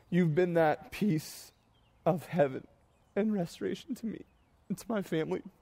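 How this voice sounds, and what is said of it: Crying, tearful high-pitched voice. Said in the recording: “I'm like a child when I cry ... it's not graceful when I cry. My voice gets high.”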